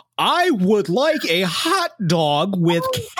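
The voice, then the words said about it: Exaggerated stiff fake American accent. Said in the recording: “feels like he's got like a pencil between his back teeth or something. Like that's how they taught him how to do an American accent”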